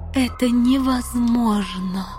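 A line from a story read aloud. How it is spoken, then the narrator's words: Moaning. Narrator (Russian): простонала королева Танитриэль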